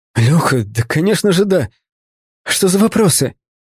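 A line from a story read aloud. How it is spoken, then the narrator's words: Excited hushed whisper. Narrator (Russian): Он чуть не вскрикнул от восторга, но вовремя схватил себя за рот и снизил голос до шепота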